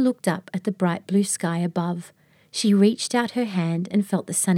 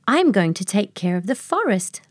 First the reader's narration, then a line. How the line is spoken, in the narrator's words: Luna exclaimed